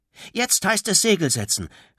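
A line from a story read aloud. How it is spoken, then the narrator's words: Calling out. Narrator (German): rief Tom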